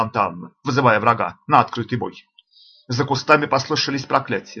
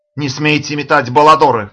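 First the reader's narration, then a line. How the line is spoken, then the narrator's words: Shout. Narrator (Russian): крикнул Санта-Анна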